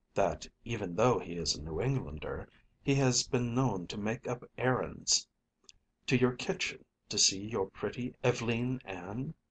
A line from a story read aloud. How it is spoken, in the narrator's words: murmured my cousin under his breath